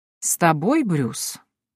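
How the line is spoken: Doubtful drawl. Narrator (Russian): недоверчиво протянул король

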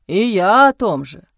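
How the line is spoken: Sighing. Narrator (Russian): вздохнул отец Амвросий

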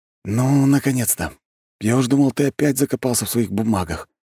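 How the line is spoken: Heavy sigh. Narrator (Russian): Тяжело вздохнул Шей

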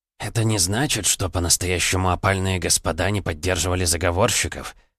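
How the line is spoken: Barely audible whisper. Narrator (Russian): Мы говорили настолько тихо, что друг друга с трудом могли расслышать

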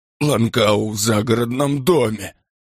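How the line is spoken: Moaning. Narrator (Russian): простонал он

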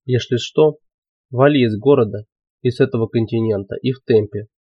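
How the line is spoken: Quiet. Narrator (Russian): Велес тихо сказал

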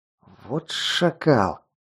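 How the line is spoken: Angry hiss. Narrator (Russian): прошипел я от злости

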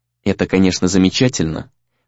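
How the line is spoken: Cold, indifferent reply. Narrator (Russian): холодно и равнодушно отозвался Сагюнару

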